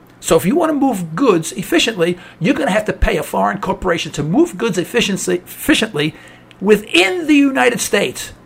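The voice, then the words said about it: New York accent. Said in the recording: “I'm originally from New York, as you can tell from my accent”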